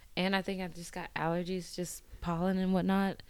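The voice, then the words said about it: Raspy, strained voice. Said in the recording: “I lost my voice at a game ... So if I sound raspy ... my bad if I sound bad”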